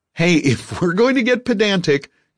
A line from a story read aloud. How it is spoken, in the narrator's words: Garfield said, laughing